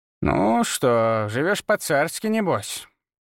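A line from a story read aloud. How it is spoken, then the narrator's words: Approving grumble. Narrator (Russian): проворчала она, но в голосе слышалось одобрение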